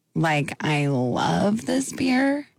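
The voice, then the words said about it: Slow vocal-fry voice. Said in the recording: “more like Kardashian? So, like, like a little bit slower? ... Vocal fry”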